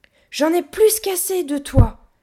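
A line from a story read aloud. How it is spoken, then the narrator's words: Roaring. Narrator (French): rugit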